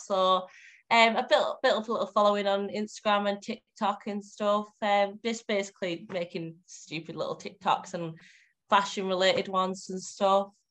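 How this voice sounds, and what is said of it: Northern English accent, Cumbrian. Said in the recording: “I'm from Cumbria, so it's like very northwest. ... I could tell, but by the accent ... I'm very like, as northern as you can get”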